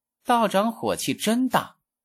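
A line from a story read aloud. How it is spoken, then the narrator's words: Coquettish, not angry. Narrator (Chinese): 那小仓优子似乎并没有生气，只是妖媚一笑，说道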